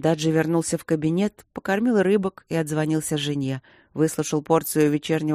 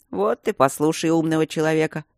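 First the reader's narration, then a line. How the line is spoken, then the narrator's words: Grumbling. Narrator (Russian): пробурчал Майло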